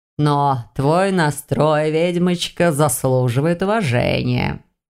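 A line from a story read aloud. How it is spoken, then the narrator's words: Growled. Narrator (Russian): рыкнул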